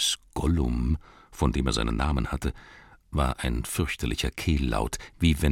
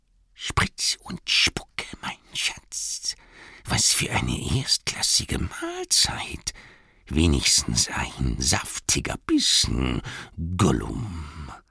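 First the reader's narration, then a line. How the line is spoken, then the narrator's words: Hissing whisper. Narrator (German): Gollum flüsterte zischelnd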